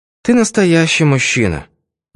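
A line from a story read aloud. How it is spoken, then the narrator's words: Sigh. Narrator (Russian): вздохнула она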